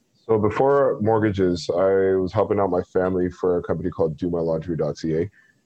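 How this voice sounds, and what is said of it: Deep radio voice. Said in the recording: “you have an amazing radio voice ... to get my voice to sound this deep, and it doesn't sound as deep as yours”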